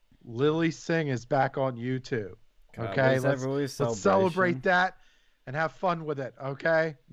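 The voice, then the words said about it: Sarcastic delivery. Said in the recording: “hear the sarcasm in my voice”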